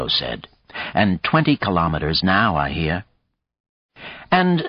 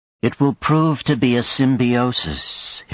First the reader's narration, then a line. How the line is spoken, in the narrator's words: Hiroko said calmly